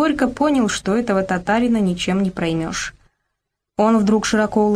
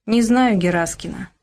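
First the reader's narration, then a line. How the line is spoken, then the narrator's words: Calm. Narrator (Russian): спокойно ответил Ишимбай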